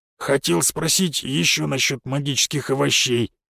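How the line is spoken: Guilty grumble. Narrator (Russian): виновато буркнул

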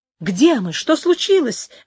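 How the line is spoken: Exclamation. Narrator (Russian): воскликнула Инесс

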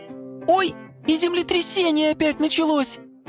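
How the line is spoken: Child's squeak. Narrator (Russian): пискнул малыш

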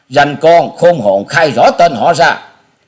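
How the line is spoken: Loud shouted demand. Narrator (Vietnamese): Một tên trong bọn lớn tiếng quát hỏi

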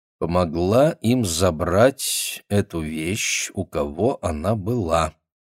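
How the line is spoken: Slow female voice. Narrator (Russian): медленно произнесла она

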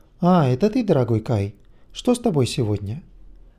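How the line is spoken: Said tenderly. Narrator (Russian): Тармана ласково произнес

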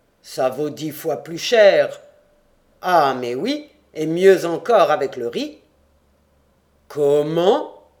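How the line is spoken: Roaring. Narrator (French): rugit Abraham

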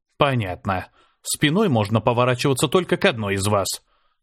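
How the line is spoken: Mumbled. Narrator (Russian): пробормотал я

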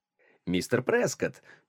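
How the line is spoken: Cheerful. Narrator (Russian): весело сказал Лоуэр

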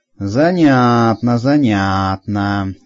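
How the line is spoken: Skeptical drawl. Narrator (Russian): недоверчиво протянул Ланько

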